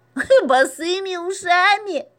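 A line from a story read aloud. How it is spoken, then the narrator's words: Laughing. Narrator (Russian): засмеялась Маруся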